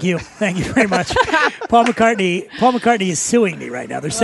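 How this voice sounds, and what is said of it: Usual voice. Nothing is said of it.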